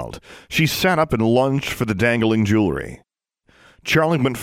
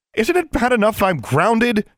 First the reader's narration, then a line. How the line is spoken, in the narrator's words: she yelled